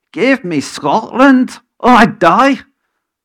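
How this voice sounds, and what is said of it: Attempted Scottish accent. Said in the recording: “I can't quite get the accent here ... How's that for Scottish”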